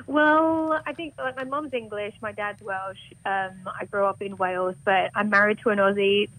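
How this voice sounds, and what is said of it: Faint Welsh, mostly English accent. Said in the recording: “You don't have a very Welsh accent ... your Welsh accent, sort of. It seems a bit more English to me than Welsh”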